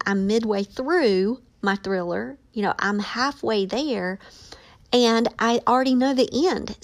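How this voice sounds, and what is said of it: Excited, animated speaking voice. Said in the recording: “my excitement in my voice”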